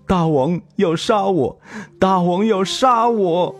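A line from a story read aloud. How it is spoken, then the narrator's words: Tearful shout. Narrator (Chinese): 赵章带着哭腔喊道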